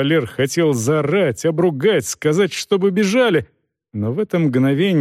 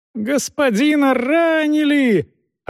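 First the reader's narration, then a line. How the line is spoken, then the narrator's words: Deafening ringing shout. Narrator (Russian): оглушительно звонко крикнул кто-то из людей рыцаря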